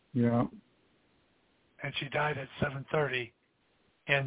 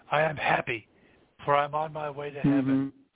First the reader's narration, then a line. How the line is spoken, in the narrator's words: she just exclaimed